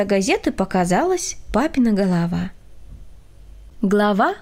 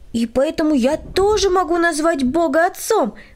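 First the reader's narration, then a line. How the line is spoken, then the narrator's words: Exclaiming. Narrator (Russian): воскликнул Владик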